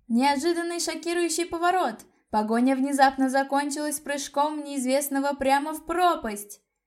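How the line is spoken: Excited trembling shout, reporter. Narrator (Russian): Дрожащим от волнения голосом кричала в микрофон репортерша

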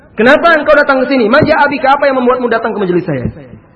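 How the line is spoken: Plain. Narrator (Indonesian): Apa kata Al-Hasan

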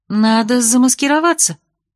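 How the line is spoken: Exclaiming. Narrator (Russian): воскликнула я

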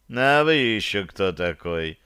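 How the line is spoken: Lazy casual question. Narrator (Russian): лениво поинтересовался Ромуал

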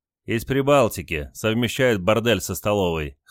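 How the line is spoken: Chuckling. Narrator (Russian): хохотнул Василий

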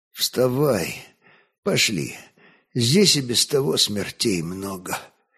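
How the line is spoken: Quiet. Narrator (Russian): Огнещанин помолчал, потом собрался с силами, тихо молвил

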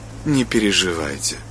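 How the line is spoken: Cold. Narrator (Russian): ответила она холодно

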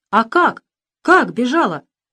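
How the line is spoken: Three voices exclaiming. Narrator (Russian): воскликнули все трое

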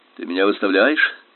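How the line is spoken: Sharp question. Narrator (Russian): резко спросил я

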